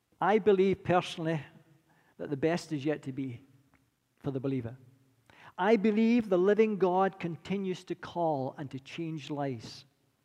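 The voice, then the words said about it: Scottish accent. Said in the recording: “my accent's a little bit more refined, and that's because I've been to Scotland ... I'll never lose my accent. They say the Scots don't give away much, but definitely not going to give away the accent.”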